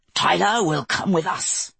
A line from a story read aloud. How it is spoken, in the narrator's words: the Holy Father snarled